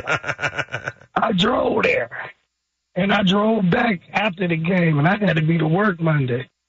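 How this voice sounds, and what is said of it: Hoarse voice. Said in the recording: “I'm hoarse because I went to the game in Baltimore.”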